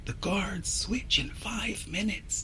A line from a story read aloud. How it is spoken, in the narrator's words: she whispers